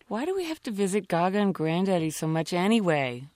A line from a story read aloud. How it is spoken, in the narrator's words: whined